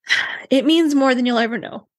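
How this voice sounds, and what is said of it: Tearful, emotional voice. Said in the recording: “Oh, I'm getting emotional. ... Oh, there we go. Tears.”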